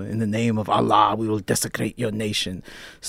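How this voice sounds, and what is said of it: Imitated father's Middle Eastern accent. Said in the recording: “all I was doing was just doing my father's accent ... do my father's essence”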